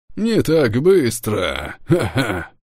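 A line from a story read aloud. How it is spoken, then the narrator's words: Guffawing boatswain. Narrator (Russian): Хохотнул боцман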